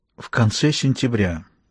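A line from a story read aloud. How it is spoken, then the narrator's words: Hoarse voice. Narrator (Russian): произнес он хриплым голосом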